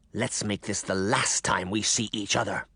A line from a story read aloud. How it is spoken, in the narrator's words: the caseworker snarled into Sabrina's ear